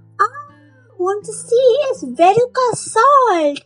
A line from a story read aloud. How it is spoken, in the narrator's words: shouted another voice in the crowd